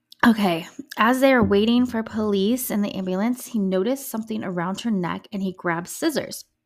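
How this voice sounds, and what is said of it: Scratchy voice. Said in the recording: “my voice is all scratchy this morning”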